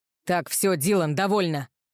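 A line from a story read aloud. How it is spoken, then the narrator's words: Rough, cutting off. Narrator (Russian): Грубым голосом оборвал Роу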